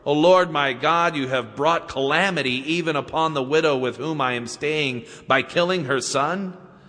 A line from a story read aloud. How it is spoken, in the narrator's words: He cried out to the Lord